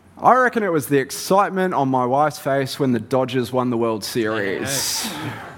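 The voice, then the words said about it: Mixed Australian, New Zealand, English accent. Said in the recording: “born in country Victoria ... spent a bit of time in New Zealand, which then having English parents has left me with a really weird accent”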